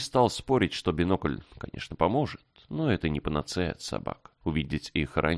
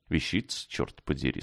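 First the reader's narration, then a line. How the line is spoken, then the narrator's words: Plain. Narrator (Russian): сказал Грег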